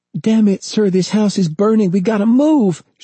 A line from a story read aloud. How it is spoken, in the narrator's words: she cried